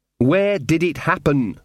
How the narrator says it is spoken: said Magrat, trying to speak slowly and distinctly

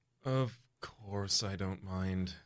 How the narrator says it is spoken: you say quietly

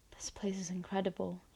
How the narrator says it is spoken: he whispers

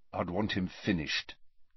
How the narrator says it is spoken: said Harry quietly

